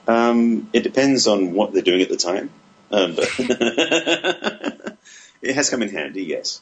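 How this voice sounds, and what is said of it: English Essex accent. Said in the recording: “Your accent's fabulous ... that incredible accent ... Originally from England. I'm an Essex boy by birth”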